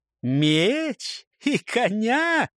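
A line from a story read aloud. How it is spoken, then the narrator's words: Guffawing. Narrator (Russian): захохотал сын Лаувы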